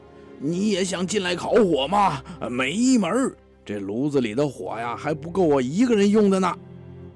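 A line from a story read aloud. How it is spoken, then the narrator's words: Shouting. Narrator (Chinese): 卢布就在屋里喊起来了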